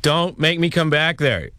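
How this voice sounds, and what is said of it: Stern scolding parent voice. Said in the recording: “talk like a parent ... Now that's pretty good. That one kind of sounded like my dad.”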